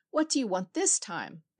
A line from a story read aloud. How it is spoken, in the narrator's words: the poor farmer cried